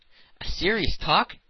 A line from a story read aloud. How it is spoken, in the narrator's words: cried Passepartout